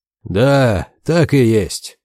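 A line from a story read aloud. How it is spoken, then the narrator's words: Creature grumbling. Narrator (Russian): проворчало существо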